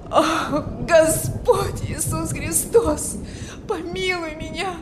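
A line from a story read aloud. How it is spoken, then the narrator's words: Despairing moan. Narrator (Russian): Стонал в отчаянии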